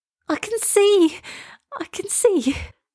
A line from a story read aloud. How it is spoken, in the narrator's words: cried Elsa